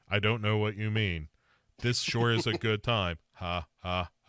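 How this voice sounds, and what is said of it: Flat monotone robotic voice. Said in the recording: “Why are you just monotone all the time, Dad? Show me some emotion. ... he's been replaced by a robot”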